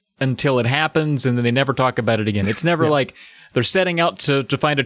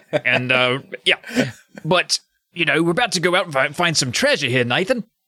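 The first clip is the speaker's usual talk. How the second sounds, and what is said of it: Put-on New Zealand accent. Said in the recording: “I was using the accent there, as a Kiwi”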